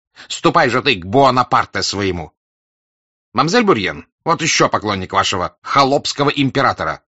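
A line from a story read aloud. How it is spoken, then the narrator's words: Shouting in French. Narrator (Russian): закричал отличным французским языком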